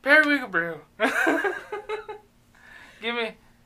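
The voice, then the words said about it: Put-on Irish accent. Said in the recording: “I gotta do an Irish accent ... Let's go full pikey here ... Full pikey from Snatch.”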